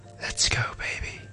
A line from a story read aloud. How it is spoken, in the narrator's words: a sound whispered